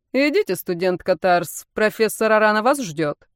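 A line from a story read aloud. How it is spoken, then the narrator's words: Stern secretary muttering. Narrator (Russian): Грозный секретарь ректора пробурчала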